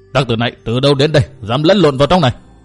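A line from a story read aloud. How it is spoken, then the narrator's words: Growled question. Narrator (Vietnamese): Quảng Kiệt gầm gừ hỏi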